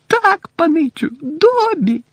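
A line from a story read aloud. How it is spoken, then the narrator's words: Squeaky little voice. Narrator (Ukrainian): запищав голосочок десь у районі пупа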